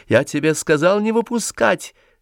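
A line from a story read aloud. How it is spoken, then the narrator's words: Shouted. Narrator (Russian): крикнул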